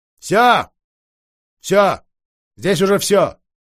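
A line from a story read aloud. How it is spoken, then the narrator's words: Loud curt sorceress. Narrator (Russian): громко бросила волшебница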